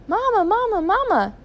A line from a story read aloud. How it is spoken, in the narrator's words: chirped Philip